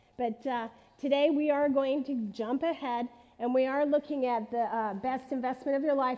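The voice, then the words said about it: Raspy voice. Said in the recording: “have a bit of a cold today ... my voice is kind of raspy.”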